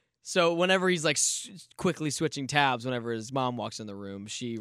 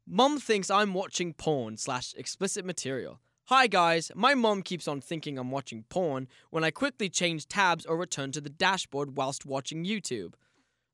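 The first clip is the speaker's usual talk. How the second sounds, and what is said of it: Put-on British accent. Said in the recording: “He's British. Can I do a British accent?”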